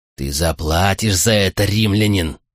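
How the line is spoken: Growled through teeth. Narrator (Russian): прорычал сквозь зубы Артакс

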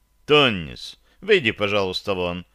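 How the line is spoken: Stern command. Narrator (Russian): строго произнес я

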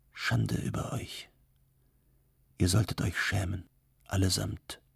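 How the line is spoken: Quiet, dignified. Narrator (German): sagte Levon leise, doch mit großer Würde

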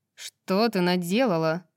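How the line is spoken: Angry question. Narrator (Russian): Сердито спросила Джезиба

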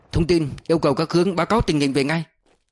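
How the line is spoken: Raised voice. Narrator (Vietnamese): Ngộ cao giọng

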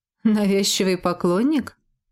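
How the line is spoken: Knowing snort. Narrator (Russian): понимающе хмыкнул Джет

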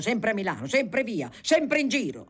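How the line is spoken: Shouting. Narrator (Italian): gridava

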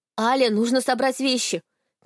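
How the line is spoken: Shouted. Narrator (Russian): крикнула Милена

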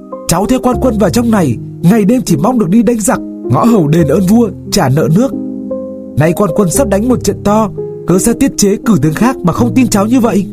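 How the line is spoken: Kneeling near-scream. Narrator (Vietnamese): Hoài Văn quỳ xuống nói như gào

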